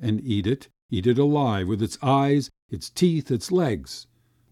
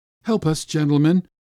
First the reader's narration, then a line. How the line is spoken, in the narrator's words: my father say in a hollow and shaking voice